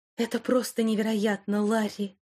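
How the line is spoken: Breathless exclamation. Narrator (Russian): выдохнула Вайолет

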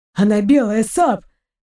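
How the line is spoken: Hoarse whisper. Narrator (Russian): хрипло зашептал Торн

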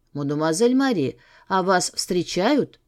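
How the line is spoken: Low slightly hoarse voice. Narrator (Russian): раздался низкий, немного хриплый голос

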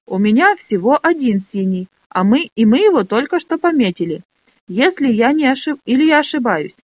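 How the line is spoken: Confused question. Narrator (Russian): растерянно спросила Минолли

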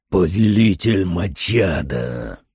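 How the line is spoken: Growling. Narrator (Russian): прорычал он

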